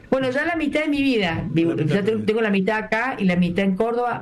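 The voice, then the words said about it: Córdoba Argentine Spanish accent. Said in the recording (Spanish): “una cordobesa, como ustedes habrán identificado ... mantener parte de mi tonada, porque antes era mucho más cordobesa que ahora”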